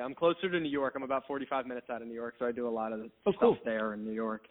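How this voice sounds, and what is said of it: Slight New Jersey accent. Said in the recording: “got a little bit more of a Jersey accent”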